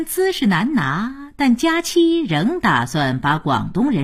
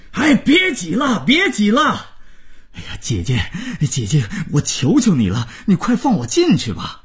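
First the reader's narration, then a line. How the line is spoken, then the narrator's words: Roaring shout. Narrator (Chinese): 新郎大吼着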